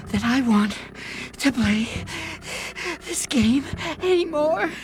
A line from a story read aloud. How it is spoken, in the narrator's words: said Peter in between gasps of air